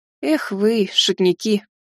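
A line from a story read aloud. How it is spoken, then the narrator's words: Sad sigh. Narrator (Russian): Печально вздохнула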